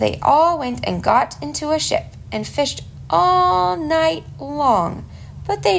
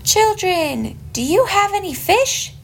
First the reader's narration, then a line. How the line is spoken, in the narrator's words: He called out to them